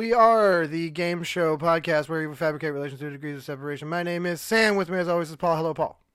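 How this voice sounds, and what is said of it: Talking very fast. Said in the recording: “I'm talking so fast ... I'm talking so fast”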